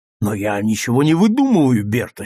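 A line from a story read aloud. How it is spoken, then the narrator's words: Angry objection. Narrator (Russian): сердито возразил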